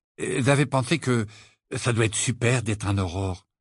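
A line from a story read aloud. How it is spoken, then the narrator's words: Casual tone. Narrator (French): dit Ron d'un ton dégagé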